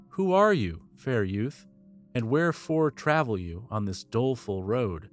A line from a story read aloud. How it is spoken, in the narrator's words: the old man asked